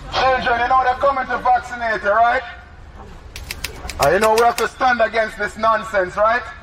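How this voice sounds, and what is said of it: Put-on Jamaican accent. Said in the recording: “my Jamaican accent”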